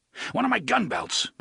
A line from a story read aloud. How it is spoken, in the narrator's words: the gunslinger panted harshly